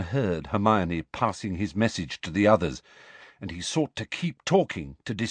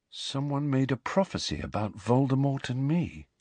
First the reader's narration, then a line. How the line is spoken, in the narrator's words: he said quietly